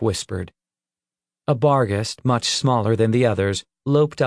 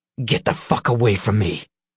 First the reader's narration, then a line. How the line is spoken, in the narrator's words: he hissed and grinned